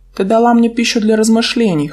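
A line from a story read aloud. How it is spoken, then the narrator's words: Snorting. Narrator (Russian): хмыкнул Дарион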